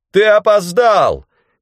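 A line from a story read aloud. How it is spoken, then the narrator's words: Shout. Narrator (Russian): крикнул мне Бранд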